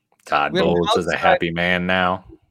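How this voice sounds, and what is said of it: Impression of Todd Bowles. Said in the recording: “your impersonation of him”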